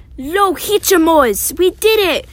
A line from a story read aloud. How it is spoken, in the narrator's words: cried Dora and Nora